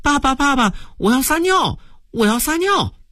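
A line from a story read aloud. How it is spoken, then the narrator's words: Child crying out. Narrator (Chinese): 小男孩叫了起来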